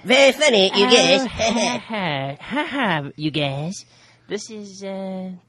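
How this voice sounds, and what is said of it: Cartoon character voice impression. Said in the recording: “does a great impression of Cartman ... That's pretty good. ... He has a good impersonation. ... You sound like Cartman.”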